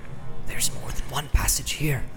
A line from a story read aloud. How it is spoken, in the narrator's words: he whispered with an effort